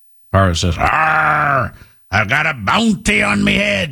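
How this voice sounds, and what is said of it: Put-on pirate accent. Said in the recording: “pirate accent”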